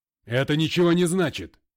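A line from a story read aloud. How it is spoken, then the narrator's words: Barked. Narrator (Russian): рявкнул МакГрей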